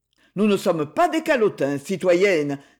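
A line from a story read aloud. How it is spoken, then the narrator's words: Mocking tone. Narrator (French): dit Luret d'un ton narquois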